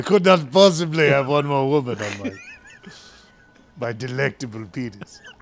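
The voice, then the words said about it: Put-on French accent. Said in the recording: “That's a fun accent. That is a fun accent. ... I'm going to be French”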